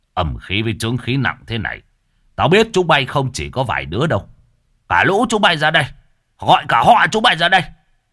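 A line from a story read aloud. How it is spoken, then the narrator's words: Master barks. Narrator (Vietnamese): Thầy quát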